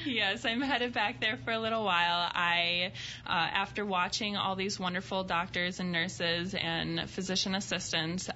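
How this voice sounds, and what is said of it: Noticeable regional accent. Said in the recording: “We love her accent.”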